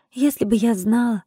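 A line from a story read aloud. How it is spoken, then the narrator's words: Sighing. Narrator (Russian): вздохнула я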